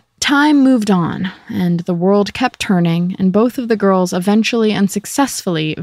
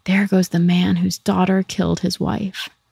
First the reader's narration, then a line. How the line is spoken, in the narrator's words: People whispered